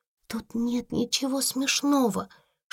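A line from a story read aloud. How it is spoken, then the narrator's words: Whisper through clenched teeth. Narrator (Russian): шептала она сквозь зубы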